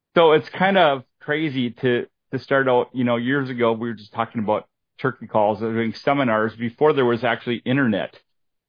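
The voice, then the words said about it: Minnesota accent. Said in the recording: “my Minnesota accent”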